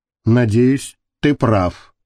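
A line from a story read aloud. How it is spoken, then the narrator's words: Gloomy. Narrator (Russian): мрачно сказала Маша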